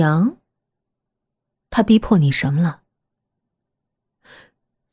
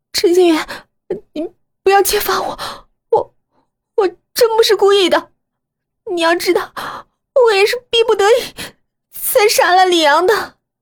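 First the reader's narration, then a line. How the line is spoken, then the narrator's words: Hesitant pleading. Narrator (Chinese): 他犹豫了一会儿，然后哀求道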